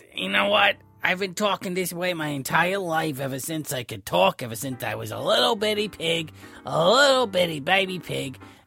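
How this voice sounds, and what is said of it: Raspy accented puppet pig voice. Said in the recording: “raspy, and I had an accent”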